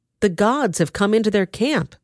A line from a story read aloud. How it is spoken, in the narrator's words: they cried